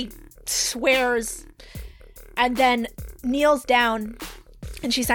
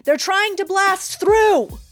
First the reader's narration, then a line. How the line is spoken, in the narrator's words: And one of the Estrins on the islands shouts